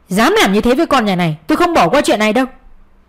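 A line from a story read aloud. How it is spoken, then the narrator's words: Angry father, from outside. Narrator (Vietnamese): giọng của bố bên ngoài giận dữ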